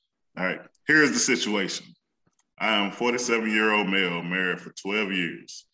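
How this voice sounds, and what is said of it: Put-on white guy voice. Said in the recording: “let me do my white guy voice.”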